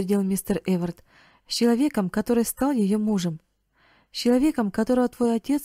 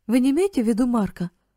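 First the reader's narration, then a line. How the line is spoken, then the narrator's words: Astonished exclamation. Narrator (Russian): воскликнул Карл в крайнем изумлении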